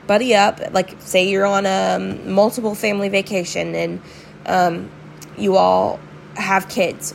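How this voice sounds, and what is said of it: Hoarse, fading voice. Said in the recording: “sorry, I'm losing my voice.”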